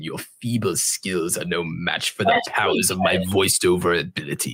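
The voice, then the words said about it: Emperor Palpatine impression. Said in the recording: “the voice of Emperor Palpatine is probably my greatest impression.”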